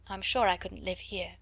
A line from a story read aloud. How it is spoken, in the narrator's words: added in a low voice